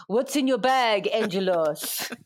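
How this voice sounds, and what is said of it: Put-on Italian accent, shouted. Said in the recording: “I don't know what accent I'm doing ... And he just shouted over in his Italian accent”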